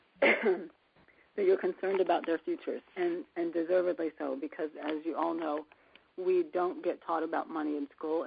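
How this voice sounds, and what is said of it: Affected, unwell-sounding voice. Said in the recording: “apologize for my voice, it's just going to be this way”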